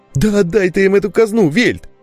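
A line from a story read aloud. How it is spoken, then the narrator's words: Frightened nasal whine. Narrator (Russian): испуганно загнусавил Толик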